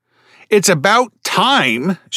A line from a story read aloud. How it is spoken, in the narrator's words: squealed